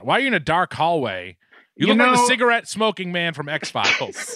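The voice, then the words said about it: Boston accent. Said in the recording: “my Boston accent”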